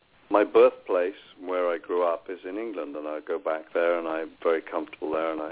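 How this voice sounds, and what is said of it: British accent. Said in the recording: “you are British ... it's an awesome accent”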